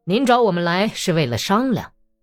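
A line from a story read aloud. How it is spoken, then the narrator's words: Repeated, louder. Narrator (Chinese): 格里高里重复了一遍，声音更大些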